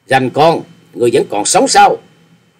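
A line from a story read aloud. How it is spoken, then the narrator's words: Loud shout. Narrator (Vietnamese): Đoạn trường mắt quát lớn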